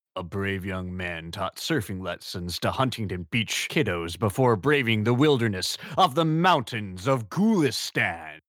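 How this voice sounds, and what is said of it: Dramatic movie trailer narrator voice. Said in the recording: “I've just always wanted to do the trailer voice.”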